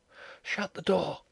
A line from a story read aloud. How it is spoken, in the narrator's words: she whispered